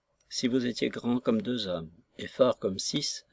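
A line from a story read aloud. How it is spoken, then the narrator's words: Very soft. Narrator (French): fit-il très doucement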